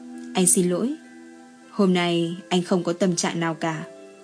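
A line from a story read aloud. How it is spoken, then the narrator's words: Soft-spoken. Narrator (Vietnamese): Châu Sinh Thần mới khẽ giọng nói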